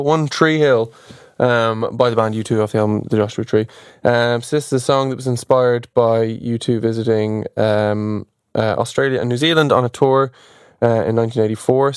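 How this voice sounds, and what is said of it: Irish Dublin accent. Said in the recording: “Hard to say with my Dublin accent.”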